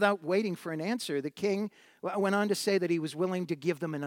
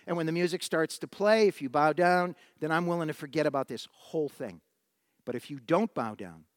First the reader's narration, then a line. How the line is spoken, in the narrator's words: the king said